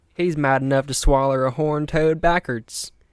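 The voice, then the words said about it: Put-on accent. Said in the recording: “I'm going to assault you with my accent again.”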